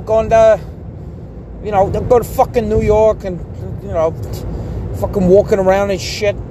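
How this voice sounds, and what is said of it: Put-on New York accent. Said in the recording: “American accents ... New York ... one of the keys to a New York accent is just saying fuck a lot”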